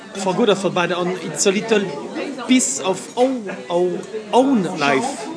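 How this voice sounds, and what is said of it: Strong French accent. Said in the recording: “my awful French accent.”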